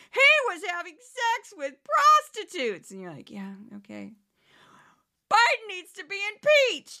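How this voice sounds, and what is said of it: Imitates a Fox News fanatic. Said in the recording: “my imitation of a Fox fanatic. Is it any good? I don't know.”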